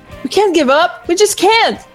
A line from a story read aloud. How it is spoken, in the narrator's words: Toaster exclaimed